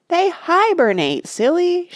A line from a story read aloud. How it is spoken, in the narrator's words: shouted